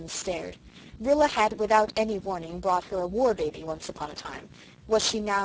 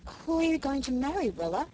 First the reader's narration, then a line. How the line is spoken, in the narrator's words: she asked feebly